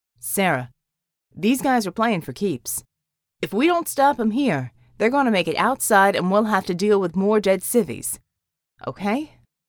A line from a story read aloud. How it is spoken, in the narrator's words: His tone was even slightly apologetic